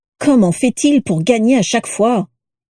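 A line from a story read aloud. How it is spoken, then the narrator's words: Moaning. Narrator (French): gémit Piscus Crabbe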